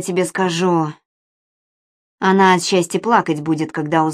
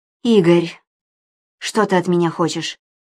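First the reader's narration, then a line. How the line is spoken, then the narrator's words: Weary interruption. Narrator (Russian): Устало перебила его Анна Сергеевна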